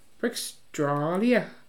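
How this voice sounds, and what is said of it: Bad put-on Australian accent. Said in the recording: “Was that a terrible accent? ... That was. ... Well, you say it in Australia.”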